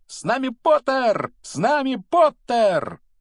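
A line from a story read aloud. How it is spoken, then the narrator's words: Yelling at full voice. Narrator (Russian): близнецы Фред и Джордж в это время вопили во весь голос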